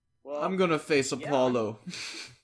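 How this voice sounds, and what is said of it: Rocky movie character impression. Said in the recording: “the Rocky impersonation”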